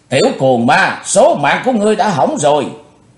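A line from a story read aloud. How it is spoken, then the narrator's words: Woman's furious roar. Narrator (Vietnamese): bà ta càng thêm giận dữ rống to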